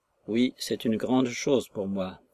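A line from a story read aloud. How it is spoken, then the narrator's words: Repeating under breath. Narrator (French): répéta-t-il à mi-voix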